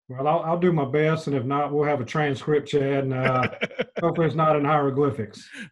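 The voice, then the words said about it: Strong Southern US accent. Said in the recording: “his deeply Southern accent ... talks as Southern as him ... sounded like they were from Mississippi and Louisiana”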